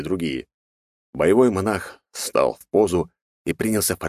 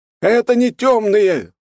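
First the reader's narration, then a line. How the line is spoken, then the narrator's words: Yelling. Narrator (Russian): завопил монах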